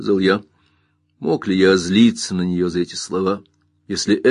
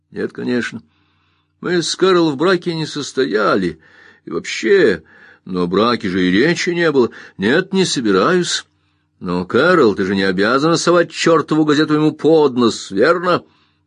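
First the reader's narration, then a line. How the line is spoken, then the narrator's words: Laughing. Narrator (Russian): Она засмеялась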